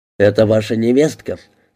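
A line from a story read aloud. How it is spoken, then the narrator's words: Plain question. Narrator (Russian): спросил ее Карелла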